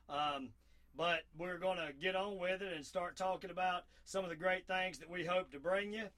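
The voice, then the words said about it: Southern American accent. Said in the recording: “my southern accent before, yes, this is real.”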